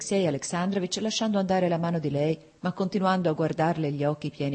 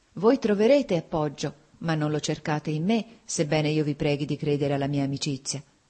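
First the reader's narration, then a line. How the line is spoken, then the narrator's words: Sighing. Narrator (Italian): disse con un sospiro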